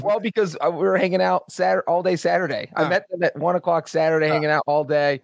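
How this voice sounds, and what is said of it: Hoarse, lost voice. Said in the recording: “your voice is gone”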